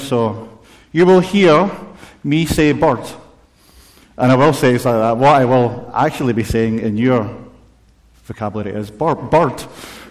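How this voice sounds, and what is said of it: Strong accent, some words unclear. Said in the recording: “because of my accent, you might get mixed up and not sure what he said”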